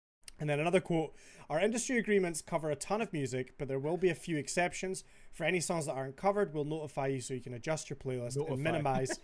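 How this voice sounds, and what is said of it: Scouse accent while reading aloud. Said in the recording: “Over here with a scouse coming out.”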